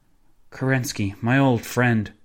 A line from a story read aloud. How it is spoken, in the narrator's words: sighed